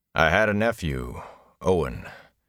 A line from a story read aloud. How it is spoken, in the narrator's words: he said wearily